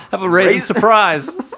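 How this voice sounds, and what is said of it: Put-on Australian accent. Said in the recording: “It's probably some Australian candy bar. ... I should have let you do the accent. ... Oh, yours is much better.”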